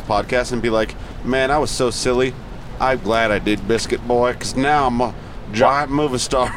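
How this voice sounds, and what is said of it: Put-on Southern US accent. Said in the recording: “a southern accent”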